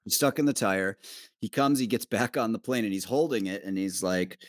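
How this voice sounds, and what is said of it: Usual voice. Nothing is said of it.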